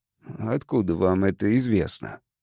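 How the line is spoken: With a short laugh. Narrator (Russian): Она хохотнула

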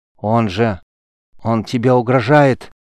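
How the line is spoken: Angry growl. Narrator (Russian): Сердито глядя на него, зарычал маг

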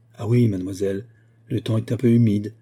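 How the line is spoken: Conciliatory reply. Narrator (French): répliqua Madame Madden d'un ton conciliant

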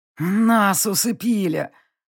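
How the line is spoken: Growled from aside. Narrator (Russian): прорычали со стороны

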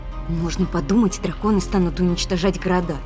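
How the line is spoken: Muttering. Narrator (Russian): пробормотал Рианон

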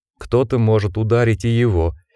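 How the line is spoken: Quiet calm voice. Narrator (Russian): произнес волк тихим, спокойным голосом

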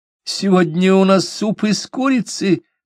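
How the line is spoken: Chirping then rusty creaking. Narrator (Russian): прощебетал он, и вслед затем проскрипел, как заржавленный

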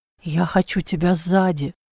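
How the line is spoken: Whisper. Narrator (Russian): прошептал он

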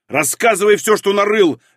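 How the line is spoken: Barking shout. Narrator (Russian): рявкнул

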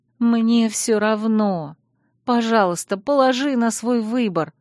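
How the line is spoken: Moaning. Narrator (Russian): простонала я

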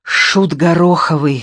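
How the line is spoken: Sigh. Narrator (Russian): вздохнул он

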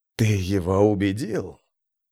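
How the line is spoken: Hiss. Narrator (Russian): Престол прошипел

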